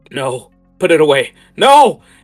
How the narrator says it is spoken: just screams at you as he's uh, coming towards you

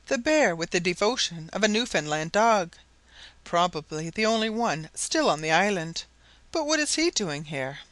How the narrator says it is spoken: she exclaimed

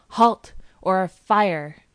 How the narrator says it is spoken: He cried

